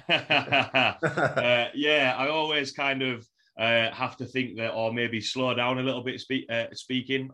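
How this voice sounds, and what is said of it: Broad Yorkshire English accent. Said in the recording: “having a broad Yorkshire accent”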